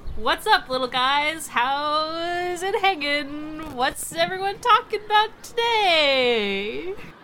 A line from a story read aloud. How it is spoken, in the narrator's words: I clap loudly and I'm like